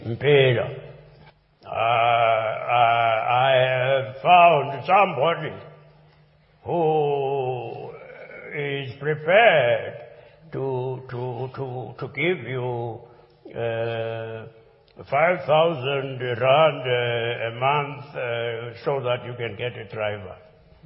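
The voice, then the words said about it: Impression of Nelson Mandela. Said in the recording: “Archbishop Emeritus Desmond Tutu with his impersonation of Nelson Mandela there.”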